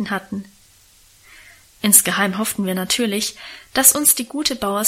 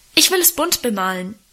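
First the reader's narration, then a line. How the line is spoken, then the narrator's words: Interrupting call. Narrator (German): rief er dazwischen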